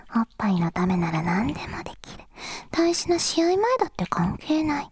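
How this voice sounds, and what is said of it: Whispering. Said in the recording (Japanese): “ささやいてもらうと”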